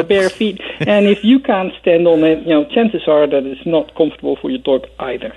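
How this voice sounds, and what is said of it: Dutch accent. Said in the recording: “with its delightful Dutch accent”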